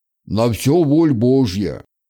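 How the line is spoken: Deep bass voice. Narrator (Russian): пробасил отец Пантелеймон

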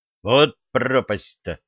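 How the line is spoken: Angry words through teeth. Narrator (Russian): зло процедил трудовик

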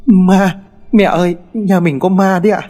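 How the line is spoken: Trembling children speaking. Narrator (Vietnamese): hai đứa con trẻ đang ôm nhau ngồi sát vào mép giường run rẩy mà nói

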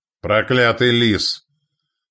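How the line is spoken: Thunderous roar. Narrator (Russian): Торстен взревел так, что чайки с криком сорвались от прибрежных валунов

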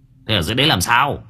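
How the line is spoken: Irritated shout. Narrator (Vietnamese): Anh Quyền bực mình quát

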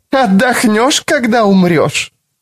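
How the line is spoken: Strange choking high laughter. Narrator (Russian): Карен засмеялась странным, захлебывающимся высоким смехом

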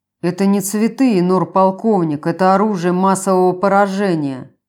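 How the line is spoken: Grumbled. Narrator (Russian): пробурчал Брун

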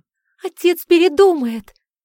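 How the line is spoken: Desperate tearful cry. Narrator (Russian): отчаянно воскликнула Кори, ее глаза были красными и опухшими от слез

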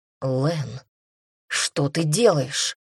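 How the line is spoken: Hoarse with anger. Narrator (Russian): Голос прозвучал сипло от злости

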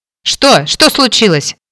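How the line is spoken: Barked. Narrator (Russian): рявкнула я

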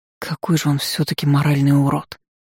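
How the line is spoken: Through gritted teeth. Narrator (Russian): Эйлин процедила

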